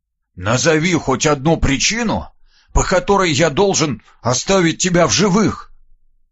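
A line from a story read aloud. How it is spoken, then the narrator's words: Slightly hoarse boyish voice. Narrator (Russian): голоса, чуть хрипловатого, но явно мальчишеского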